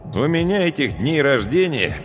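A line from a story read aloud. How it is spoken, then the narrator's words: Grumbling. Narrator (Russian): проворчал я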